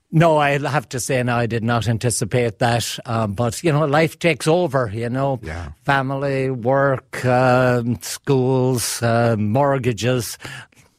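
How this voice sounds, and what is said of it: Irish accent. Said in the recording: “you still have the Irish accent”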